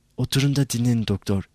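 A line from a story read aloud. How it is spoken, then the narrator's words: Soft, quiet voice. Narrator (Turkish): Usulca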